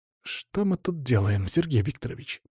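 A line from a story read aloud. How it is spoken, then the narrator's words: Through clenched teeth. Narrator (Russian): процедил Веня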